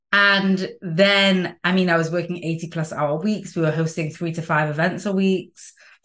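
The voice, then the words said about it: Non-American accent. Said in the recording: “my accent, I'm not American”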